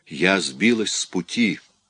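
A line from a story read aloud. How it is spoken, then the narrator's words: Barely audible. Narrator (Russian): еле слышно проговорила она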